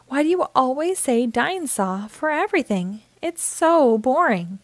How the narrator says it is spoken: would sigh

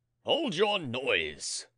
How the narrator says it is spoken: thundered a stentorian voice

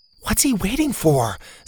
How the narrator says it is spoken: Zeta whispered

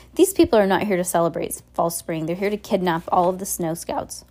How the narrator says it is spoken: Violet interrupted quickly

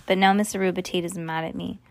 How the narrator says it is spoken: sighed Ivy

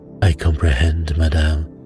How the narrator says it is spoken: said Poirot soothingly

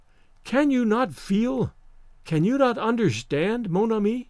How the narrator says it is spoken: said calmly

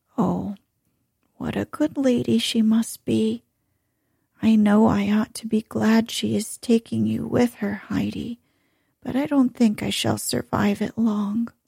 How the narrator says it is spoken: the old woman, smiling sadly, said

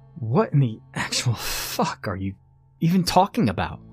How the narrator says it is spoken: stammered at him, feeling myself cower to his presence

